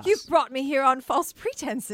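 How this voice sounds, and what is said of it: Put-on British accent. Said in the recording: “Where are these accents coming from, guys? ... Whenever you're telling a scandalous story, you have to put on a British accent.”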